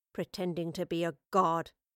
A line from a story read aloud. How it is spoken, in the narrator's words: the professor muttered in dark tones